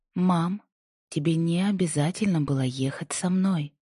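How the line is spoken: Soft. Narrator (Russian): Голос Инди прозвучал мягко

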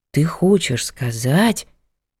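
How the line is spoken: Exhaled. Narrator (Russian): выдохнул

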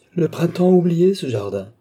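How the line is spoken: Cried out. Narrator (French): s'écriait-elle

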